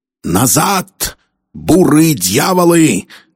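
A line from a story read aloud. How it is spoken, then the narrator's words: Roaring. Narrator (Russian): проревел Кирби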